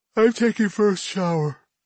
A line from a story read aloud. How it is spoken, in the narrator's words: she says with a yawn